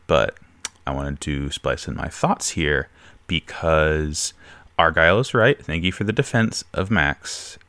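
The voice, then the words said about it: Sick, under-the-weather voice. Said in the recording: “I'm not feeling well this week, as you can probably tell by my voice.”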